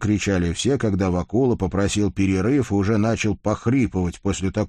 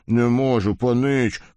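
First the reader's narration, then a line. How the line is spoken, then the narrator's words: Hoarse wheeze. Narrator (Russian): просипел кузнец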